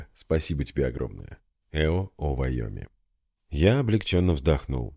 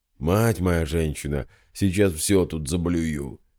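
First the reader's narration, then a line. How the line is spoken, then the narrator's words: Hoarse wheeze. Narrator (Russian): прохрипел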